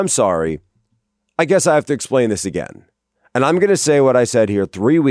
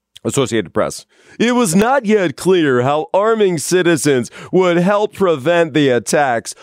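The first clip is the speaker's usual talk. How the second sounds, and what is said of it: Mock announcer voice. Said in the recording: “I have to do this in the announcer voice.”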